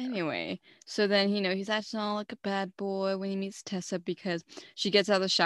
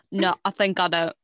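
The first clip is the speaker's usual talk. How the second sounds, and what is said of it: Poor attempt at British accent. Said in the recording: “I cannot do the British accent. ... I really just butchered that. That was really bad.”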